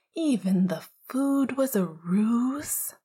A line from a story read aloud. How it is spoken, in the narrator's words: Sirius whined dramatically